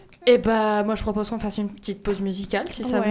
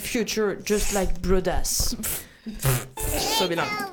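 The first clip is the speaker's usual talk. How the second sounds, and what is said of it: Put-on English accent. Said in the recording (French): “Avec mon super accent anglais”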